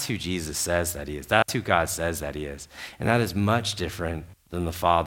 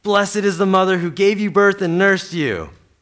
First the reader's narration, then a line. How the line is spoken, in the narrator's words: a woman in the crowd called out